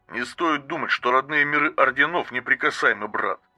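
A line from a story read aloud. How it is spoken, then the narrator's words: Muttering. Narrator (Russian): наконец пробормотал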